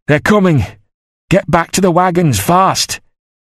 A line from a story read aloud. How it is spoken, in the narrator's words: He shouted it over and over